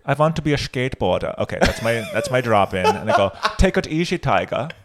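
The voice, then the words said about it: Put-on German or Dutch accent. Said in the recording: “You don't like my German accent?... sound like the gold member guy... I'm more doing a Dutch, a horny Dutch gold member”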